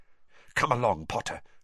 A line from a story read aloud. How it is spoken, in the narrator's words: she whispered